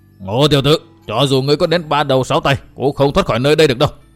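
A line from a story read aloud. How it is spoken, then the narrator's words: Furious tiger-like roar. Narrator (Vietnamese): cả giận gầm lên một tiếng như cọp trống, thét lớn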